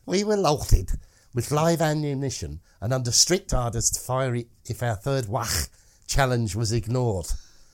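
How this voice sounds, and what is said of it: Put-on Scouse Liverpool accent. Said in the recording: “Liverpool accent ... enjoy ... Scouse accent”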